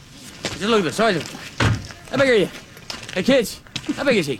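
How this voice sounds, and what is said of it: Brad Pitt's hard-to-understand pikey accent. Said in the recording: “Brad Pitt in Snatch ... he's doing an Irish accent ... Can't really understand much of what is being said ... It's not Irish. It's not English ... it's just pike”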